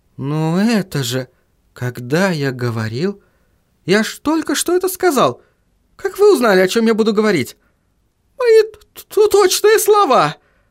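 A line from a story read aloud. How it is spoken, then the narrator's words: Stammering mutter. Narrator (Russian): Заикаясь, забормотал казначей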